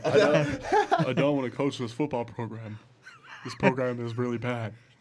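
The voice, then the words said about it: Imitates another person's voice. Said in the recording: “That's my Nick Saban impression. It's really bad.”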